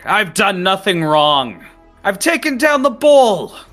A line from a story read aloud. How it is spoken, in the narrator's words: Rory just yells back